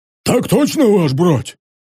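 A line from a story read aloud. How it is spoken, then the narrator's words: Hoarse low voice. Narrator (Russian): ответил хриплый босок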